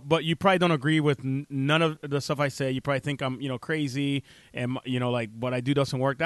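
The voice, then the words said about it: Speaks with a noticeable accent. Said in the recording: “maybe my accent that I do have”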